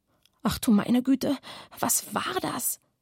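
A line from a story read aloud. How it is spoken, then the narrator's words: Murmured. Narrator (German): raunte Oskar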